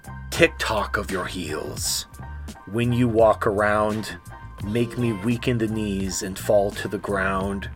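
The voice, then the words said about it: Dramatic reading voice. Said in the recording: “I'll read it in a dramatic voice.”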